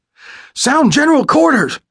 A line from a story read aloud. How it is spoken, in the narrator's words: he yelled down the hatch